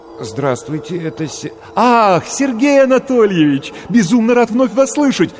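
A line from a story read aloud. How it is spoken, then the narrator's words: Joyful rapid chatter. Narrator (Russian): радостно затараторил голос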